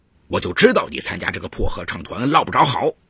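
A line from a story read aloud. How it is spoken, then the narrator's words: Angry yelling. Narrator (Chinese): 展明涛对儿子吼道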